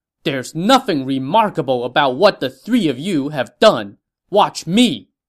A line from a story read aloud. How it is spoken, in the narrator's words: someone from the green side rode out and shouted